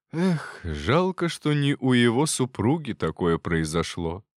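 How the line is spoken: Sighing speech. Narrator (Russian): вздохнул Терентьев

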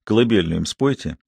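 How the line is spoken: Quiet. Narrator (Russian): сказал негромко

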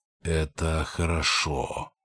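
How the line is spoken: Heavy voice. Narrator (Russian): произнес он тяжелым голосом

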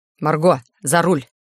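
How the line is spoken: Sharp, flat, uncompromising command. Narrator (Russian): Резкая команда была отдана глухим, бескомпромиссным тоном

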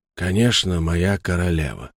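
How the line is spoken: Quiet, pained. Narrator (Russian): тихо, болезненно произнес тот

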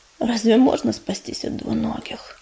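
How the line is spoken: Tired exhale. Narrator (Russian): устало выдохнул

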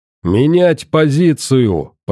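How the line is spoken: Thundered. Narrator (Russian): прогремел

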